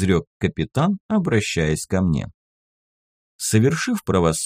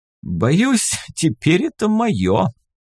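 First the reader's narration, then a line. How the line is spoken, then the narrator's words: Laughing. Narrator (Russian): рассмеялся капитан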